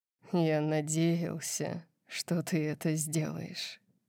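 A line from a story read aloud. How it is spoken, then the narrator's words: Quiet voice. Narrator (Russian): сказал он тихим голосом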